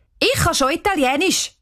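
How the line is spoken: Calling. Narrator (German): ruft Cheyenne

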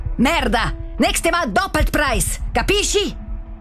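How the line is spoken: Very loud shouting. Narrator (German): Er schreit jetzt so laut, dass man ihn auch draussen hört

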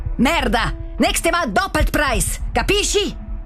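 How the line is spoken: Very loud male shouting. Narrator (German): Er schreit jetzt so laut, dass man ihn auch draussen hört

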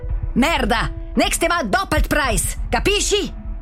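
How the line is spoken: Very loud shouting. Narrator (German): Er schreit jetzt so laut, dass man ihn auch draussen hört

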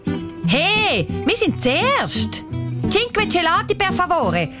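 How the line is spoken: Loud. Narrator (German): sagt sie mit lauter Stimme

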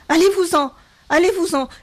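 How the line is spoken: Shouting, increasingly agitated. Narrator (French): cria-t-elle de plus en plus excitée

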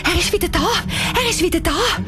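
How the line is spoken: Excited. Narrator (German): sagt aufgeregt

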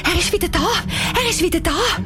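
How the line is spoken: Excited. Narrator (German): Anisa sagt aufgeregt

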